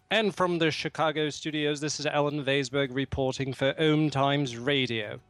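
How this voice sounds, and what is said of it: Put-on British accent. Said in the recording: “my British accent”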